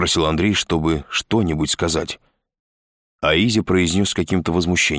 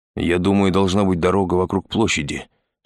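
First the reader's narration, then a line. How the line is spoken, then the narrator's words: Plain. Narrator (Russian): сказал Пак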